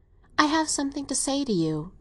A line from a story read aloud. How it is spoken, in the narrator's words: began very gently